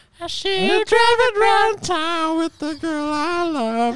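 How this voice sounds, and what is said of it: High-pitched helium cartoon-mouse singing voice. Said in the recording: “You sounded like a helium Mickey Mouse”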